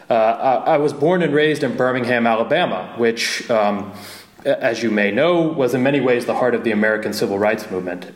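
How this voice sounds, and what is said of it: American Southern accent. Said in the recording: “if you can't tell from my accent, I'm American”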